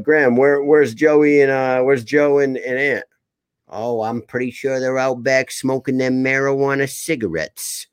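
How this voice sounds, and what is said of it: Exaggerated thick Rhode Island accent. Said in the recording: “I'm doing a thicker accent of my own accent... that Rhode Island, that thick Rhode Island accent”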